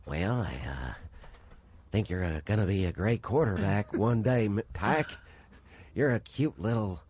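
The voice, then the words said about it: Bad Ronald Reagan impression. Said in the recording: “worst Ronald Reagan impression”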